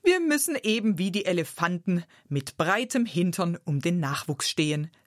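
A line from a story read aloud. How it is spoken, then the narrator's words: Laughing speech. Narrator (German): sagte sie lachend zu mir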